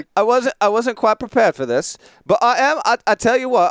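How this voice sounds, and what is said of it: Fake English accent drifting Irish. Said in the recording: “you sound like an idiot doing a fake English accent... I think I'm also bouncing around all of England, maybe getting even into the to the Irish right now... in an English accent”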